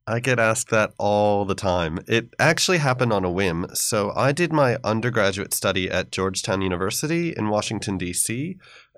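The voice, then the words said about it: American accent. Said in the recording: “The first thing our listeners are going to notice from your accent is that you were raised in America.”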